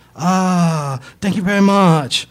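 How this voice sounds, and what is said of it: Exaggerated mock Chinese accent. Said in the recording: “In the worst Chinese accent this side of a 1930s Charlie Chan movie”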